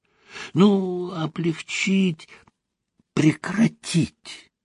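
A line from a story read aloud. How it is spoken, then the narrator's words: Whispering. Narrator (Russian): шепотом заговорил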